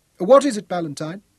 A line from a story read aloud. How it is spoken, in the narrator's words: Rhodes asked sharply